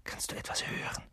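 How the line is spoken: Whispered. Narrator (German): flüsterte Ron

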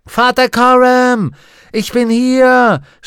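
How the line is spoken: Shouting. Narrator (German): schrie Lyra

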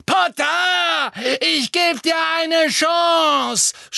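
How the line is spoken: Shouted. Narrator (German): schrie Bellatrix

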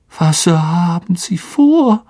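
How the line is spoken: Weak, tired voice. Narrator (German): sagte Lockhart mit matter Stimme

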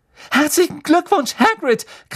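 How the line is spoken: Shrieking. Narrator (German): kreischte Hermine

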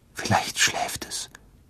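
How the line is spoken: Whispering. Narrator (German): flüsterte

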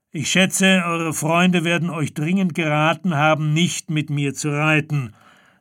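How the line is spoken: Loud call to men. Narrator (German): rief mit lauter Stimme seinen Männern zu

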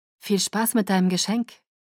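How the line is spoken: Plain. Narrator (German): sagte Rosalie

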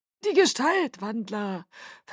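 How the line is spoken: Calm correction. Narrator (German): verbesserte Aro ruhig

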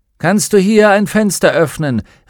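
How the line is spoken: Ghost calling out. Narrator (German): rief John Perrys Geist

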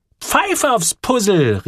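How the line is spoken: Called out. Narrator (German): rief

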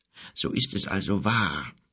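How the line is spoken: Wizard murmuring. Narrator (German): murmelte der Zauberer endlich

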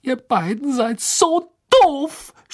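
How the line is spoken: Shouted. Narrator (German): schrie sie

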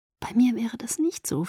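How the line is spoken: Whispered. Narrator (German): flüsterte

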